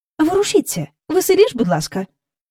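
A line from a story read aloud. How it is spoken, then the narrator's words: Urging. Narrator (Ukrainian): Підохотила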